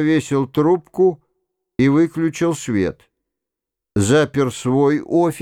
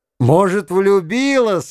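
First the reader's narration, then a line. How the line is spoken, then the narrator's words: Laughing. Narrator (Russian): я рассмеялся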